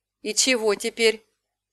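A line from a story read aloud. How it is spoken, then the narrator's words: Gloomy question. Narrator (Russian): спросила я мрачно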